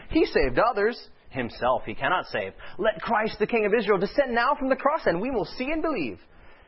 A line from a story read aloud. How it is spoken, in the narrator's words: the chief priests mocking said among themselves with the scribes